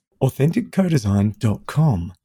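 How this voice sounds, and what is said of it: Announcer-style radio voice. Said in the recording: “that was my best radio voice.”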